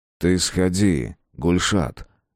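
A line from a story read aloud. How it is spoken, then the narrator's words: Unexpectedly deep voice, no accent. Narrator (Russian): Неожиданно глубоким голосом и без акцента сказал Митхат Абый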